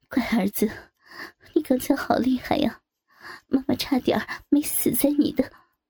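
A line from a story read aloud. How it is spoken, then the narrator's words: Long sigh. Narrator (Chinese): 玉珍 长长的叹了一口气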